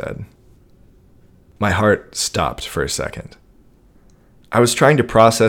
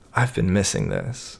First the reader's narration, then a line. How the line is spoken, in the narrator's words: she says softly